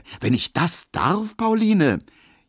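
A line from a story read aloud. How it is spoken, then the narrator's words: Calling. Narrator (German): rief Emil Kubinke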